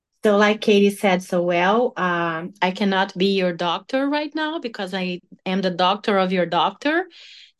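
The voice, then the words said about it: Speaks with a slightly different accent. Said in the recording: “my accent is a little bit different”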